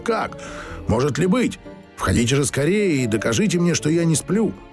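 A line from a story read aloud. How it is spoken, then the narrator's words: Excited shout. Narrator (Russian): он закричал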